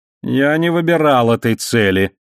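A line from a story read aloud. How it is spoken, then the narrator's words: Displeased voice. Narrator (Russian): недовольным голосом сказал Марзак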